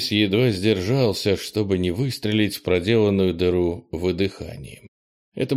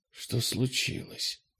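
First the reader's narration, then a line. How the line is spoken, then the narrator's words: Quiet question. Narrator (Russian): тихо спросила она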